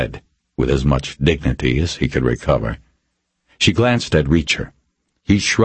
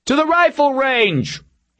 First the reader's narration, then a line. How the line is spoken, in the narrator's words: he called out